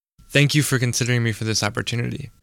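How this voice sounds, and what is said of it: Male voice with vocal fry. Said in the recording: “popping or creaking sound at the bottom of the vocal register ... here he is again speaking with vocal fry”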